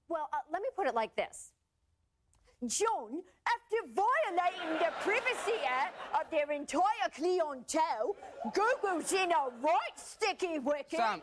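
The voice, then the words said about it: Put-on British accent. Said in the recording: “you don't need to speak in a British accent.”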